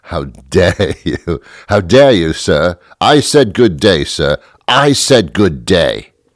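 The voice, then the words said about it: Indignant put-on British accent. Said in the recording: “we put on a British accent ... We just jump right into the accent.”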